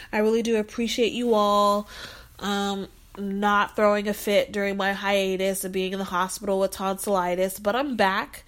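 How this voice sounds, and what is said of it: Slightly congested, sore voice. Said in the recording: “You can probably tell in my voice a little bit that I'm still a little congested, a little sore”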